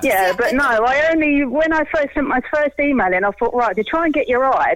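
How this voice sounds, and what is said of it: Essex English accent. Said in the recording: “Oh, I love your accent. It's lovely, isn't it? ... I'm actually from Epping in Essex.”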